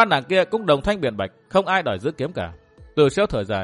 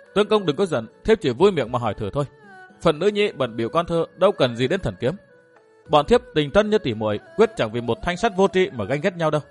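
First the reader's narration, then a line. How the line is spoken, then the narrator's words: Frightened tearful stammering. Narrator (Vietnamese): Thu Uyên sợ hãi xa lệ ấp úng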